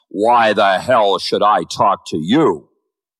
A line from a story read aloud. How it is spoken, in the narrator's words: roared above the clacking wheels